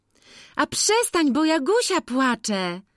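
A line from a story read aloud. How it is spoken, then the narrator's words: Calling out. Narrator (Polish): zawołała Nastka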